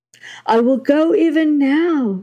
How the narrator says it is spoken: shouted the priest

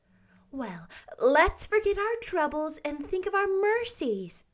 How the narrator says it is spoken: said Anne gaily

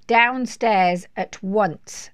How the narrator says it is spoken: bellowed Mrs

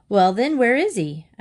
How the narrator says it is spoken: asked his father impatiently

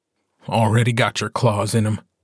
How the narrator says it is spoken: Gordo says in a dead voice

